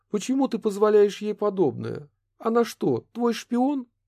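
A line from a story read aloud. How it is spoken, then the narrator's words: Displeased exclamation. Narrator (Russian): воскликнула недовольно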